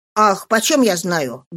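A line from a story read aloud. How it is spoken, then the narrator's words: Rude, bad-tempered reply. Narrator (Russian): грубо отвечала Зоя, которая, по-видимому, была очень не в духе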